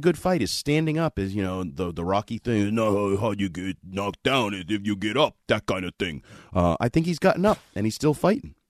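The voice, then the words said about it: Rocky Balboa impression. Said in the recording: “Rocky ... Impersonate. ... It wasn't bad for midnight. I've been sick. ... your best Rocky Balboa impersonation. ... It won't be better than that one”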